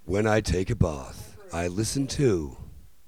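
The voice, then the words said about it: Radio announcer voice. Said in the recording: “radio voice”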